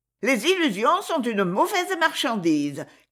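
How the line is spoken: Shrill loud proclamation. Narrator (French): clama une voix criarde

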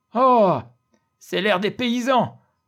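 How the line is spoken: Group exclaiming. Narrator (French): Et toute la table s'écria

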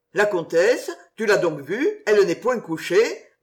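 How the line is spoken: Plain question. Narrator (French): demanda Darcourt

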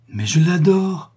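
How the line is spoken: Slightly anxious exclamation. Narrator (French): s'écria Max, un peu inquiet, malgré lui, de tant de solennité

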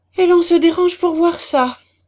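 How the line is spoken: Exclaimed. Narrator (French): s'écria M

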